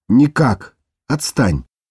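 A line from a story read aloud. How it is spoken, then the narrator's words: Hissing. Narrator (Russian): прошипела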